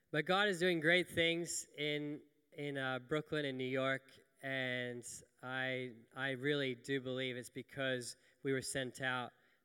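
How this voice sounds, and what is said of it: American-sounding accent, rolled R's. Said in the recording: “I grew up in New York from 7 till 16, so if I sound a little bit like I'm rolling my R's, I'm not putting it on ... my old accent is coming back ... people said, you sound American.”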